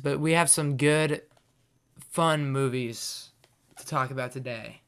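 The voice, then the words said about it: Hoarse, partly lost voice. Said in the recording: “My voice is a little gone for some reason.”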